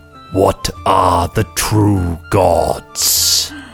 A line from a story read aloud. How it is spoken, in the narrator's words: the statue rumbles slightly, and a voice calls out